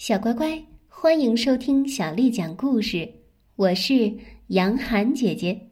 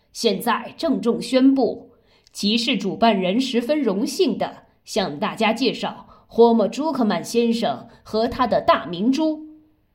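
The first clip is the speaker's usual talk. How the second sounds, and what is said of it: Solemn loudspeaker announcer voice. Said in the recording (Chinese): “扩音器里庄严的声音说”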